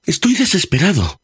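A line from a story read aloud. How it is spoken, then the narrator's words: Pleading. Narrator (Spanish): suplicó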